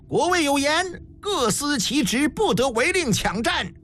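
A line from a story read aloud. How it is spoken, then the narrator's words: Loud messenger. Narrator (Chinese): 快马使者高声道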